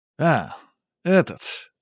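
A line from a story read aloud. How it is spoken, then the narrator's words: Grunting doorman. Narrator (Russian): швейцар хмыкнул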